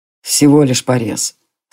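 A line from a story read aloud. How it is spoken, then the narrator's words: Calm old elf. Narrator (Russian): спокойно сказал старый эльф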